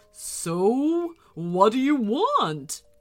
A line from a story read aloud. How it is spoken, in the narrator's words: growled the winter dragon